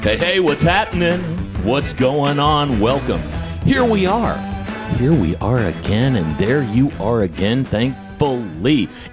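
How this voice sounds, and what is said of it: Cheesy radio announcer voice. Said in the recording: “Why am I talking in such a cheesy radio voice all of a sudden?”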